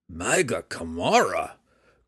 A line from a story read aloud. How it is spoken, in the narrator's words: grumbled Belwar, almost wishing that a Corby would step out and attack